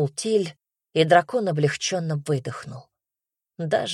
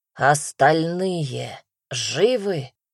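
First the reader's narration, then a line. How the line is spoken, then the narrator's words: Growling draconid voice. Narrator (Russian): рычащий голос драконида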